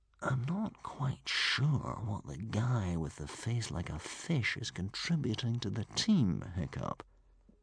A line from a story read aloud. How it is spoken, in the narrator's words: whispered Humongous